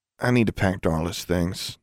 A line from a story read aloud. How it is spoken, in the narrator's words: she mumbled